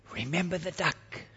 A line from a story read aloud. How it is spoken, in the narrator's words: she whispered to him in his ear